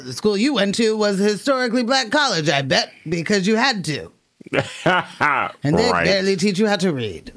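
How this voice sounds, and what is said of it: Distinguished aristocratic European-sounding accent. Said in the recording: “you gave him a more distinguished accent. ... It had to be somewhat European. ... aristocratic.”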